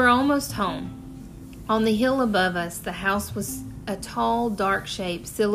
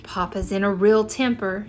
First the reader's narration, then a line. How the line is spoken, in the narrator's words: she said